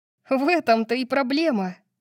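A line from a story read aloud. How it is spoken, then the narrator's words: Giggling. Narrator (Russian): хихикнула я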